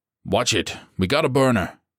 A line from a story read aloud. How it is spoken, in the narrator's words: Bretz barked